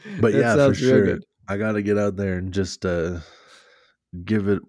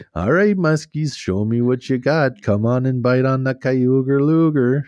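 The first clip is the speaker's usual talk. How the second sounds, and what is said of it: Put-on Minnesota accent. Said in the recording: “Just in the Minnesota accent.”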